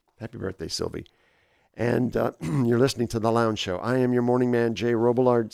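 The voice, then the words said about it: Slightly hoarse, fading voice. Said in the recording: “Slightly losing my voice. It's all of a sudden just started up on me.”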